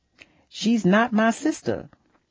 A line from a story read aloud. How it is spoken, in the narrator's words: Sandra gasped